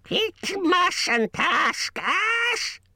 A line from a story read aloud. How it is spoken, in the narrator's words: shrieked Gollum